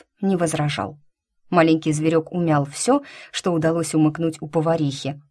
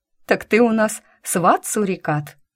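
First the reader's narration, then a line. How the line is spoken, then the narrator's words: Laughing. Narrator (Russian): рассмеялась я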